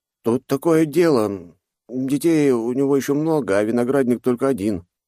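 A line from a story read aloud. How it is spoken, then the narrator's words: Mumbling young man. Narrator (Russian): промямлил паренек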